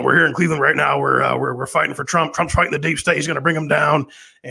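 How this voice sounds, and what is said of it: Impression of Alex Jones. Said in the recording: “I did my Alex Jones impression ... you got to hear this guy do your impression of him”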